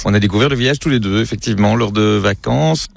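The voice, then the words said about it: Slight Belgian French accent. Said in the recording (French): “ça s'entend un petit peu à votre accent. Vous venez tous les deux de Belgique.”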